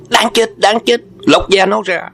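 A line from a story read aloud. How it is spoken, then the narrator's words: Angry crowd shouting together. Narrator (Vietnamese): Chúng cử tử đều phẫn uất đồng rập hét lên một tiếng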